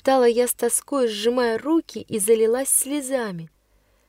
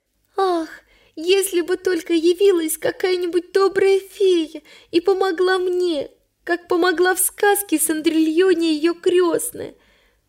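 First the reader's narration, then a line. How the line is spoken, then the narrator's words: Sobbing. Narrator (Russian): повторяла я сквозь рыдание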